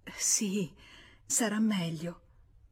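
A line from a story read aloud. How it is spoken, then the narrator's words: Murmur. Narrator (Italian): mormorò lei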